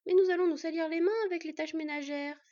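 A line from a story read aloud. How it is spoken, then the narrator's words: Mock whimpering. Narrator (French): fit mine de pleurnicher Scad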